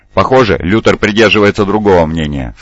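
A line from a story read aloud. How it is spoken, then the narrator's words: Plain. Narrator (Russian): сказал он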